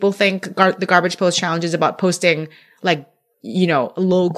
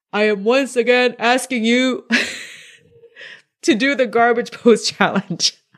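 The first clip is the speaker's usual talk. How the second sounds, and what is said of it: Imitates another person's voice. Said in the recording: “in my best Bernie Sanders voice, which is not that good because I'm bad with impressions”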